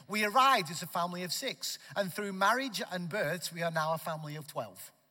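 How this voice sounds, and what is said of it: Northwest English accent. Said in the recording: “my accent is a distraction ... arrived here from the northwest of England. Okay, near Manchester, Liverpool, that area, a city called Preston”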